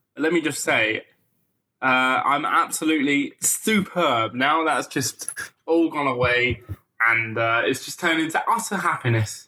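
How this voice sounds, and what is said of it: Slightly congested, stuffy voice. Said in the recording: “I've got a bit of a cold.”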